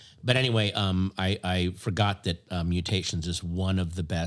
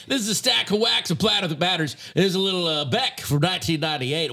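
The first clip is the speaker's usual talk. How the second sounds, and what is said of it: Radio DJ voice. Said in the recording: “that was a horrible DJ voice ... you sounded ... like a real DJ”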